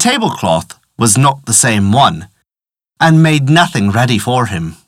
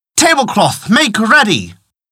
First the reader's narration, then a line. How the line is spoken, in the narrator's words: in vain that he cried